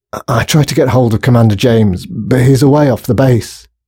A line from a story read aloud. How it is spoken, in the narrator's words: panted the guard as they sped down another flight of steps